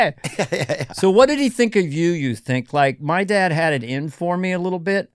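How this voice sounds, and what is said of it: Usual voice. Nothing is said of it.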